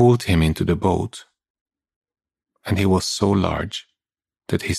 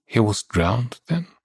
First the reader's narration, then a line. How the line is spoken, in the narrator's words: I murmured